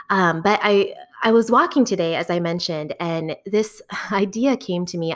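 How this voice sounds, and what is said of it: Slightly scratchy voice. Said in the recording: “I have a bit of allergies right now, so if my voice is a little bit scratchy”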